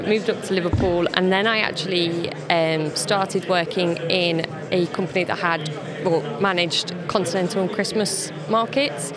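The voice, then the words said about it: English Leicester accent. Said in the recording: “originally I'm from Leicester, which you can probably tell from my accent. I've not got a Liverpool accent.”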